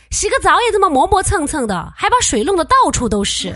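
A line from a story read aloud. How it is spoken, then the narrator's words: Calling out. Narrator (Chinese): 妈妈叫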